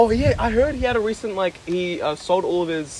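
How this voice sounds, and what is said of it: Usual voice. Nothing is said of it.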